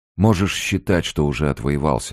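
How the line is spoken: Plain. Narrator (Russian): сказал Фалько

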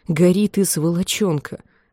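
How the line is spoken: Whisper through clenched teeth. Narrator (Russian): прошептал он сквозь стиснутые зубы

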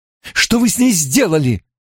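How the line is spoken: Indignant cry. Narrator (Russian): вскрикнула Найниф с негодованием

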